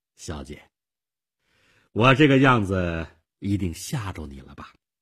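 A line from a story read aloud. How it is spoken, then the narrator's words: Forced smile. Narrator (Chinese): 勉强地笑笑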